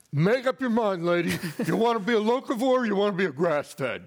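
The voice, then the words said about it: Heavy New York accent. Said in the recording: “heavy New York accent”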